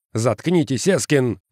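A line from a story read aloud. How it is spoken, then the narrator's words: Barked. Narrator (Russian): рявкнул Уэверли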